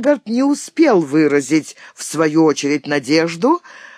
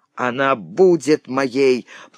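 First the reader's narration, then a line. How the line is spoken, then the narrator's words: Growling. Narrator (Russian): прорычал донор Шварц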